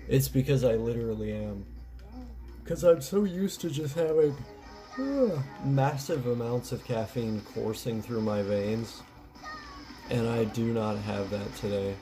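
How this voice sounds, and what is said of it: Tired-sounding voice. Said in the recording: “I sound pretty tired”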